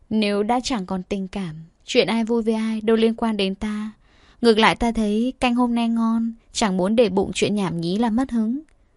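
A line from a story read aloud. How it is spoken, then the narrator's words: Gentle, smiling. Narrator (Vietnamese): Uyển Thanh mỉm cười dịu dàng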